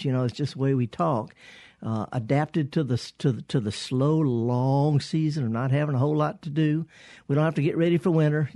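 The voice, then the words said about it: Thick Southern US accent. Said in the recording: “I've got a pretty thick Southern accent”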